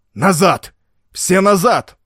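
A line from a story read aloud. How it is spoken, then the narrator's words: Shouted command. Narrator (Russian): он закричал своим воинам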